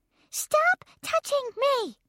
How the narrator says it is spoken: she hollered right in my face

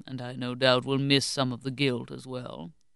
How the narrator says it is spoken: Monsieur grumbled wearily

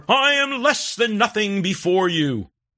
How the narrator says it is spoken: The equally pompous cantor emulates the rabbi, shouting even louder

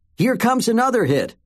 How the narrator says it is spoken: Kate's dad called out

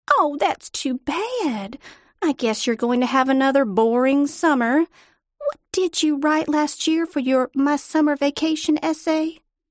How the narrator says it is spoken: She laughed

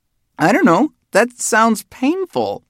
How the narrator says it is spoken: squeaked the taller one

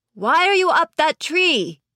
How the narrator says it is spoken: I shouted

